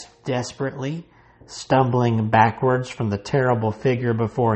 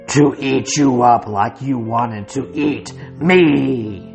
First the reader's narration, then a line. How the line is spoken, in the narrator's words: Rawhead roared